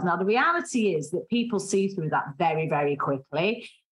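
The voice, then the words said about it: Strong Mancunian accent. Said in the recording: “I have a strong Mancunian accent.”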